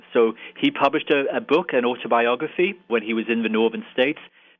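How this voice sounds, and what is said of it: Irish accent. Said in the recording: “I'm an Irish citizen, as you might be able to tell from my accent.”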